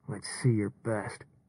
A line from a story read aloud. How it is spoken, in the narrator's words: Deke muttered through clenched teeth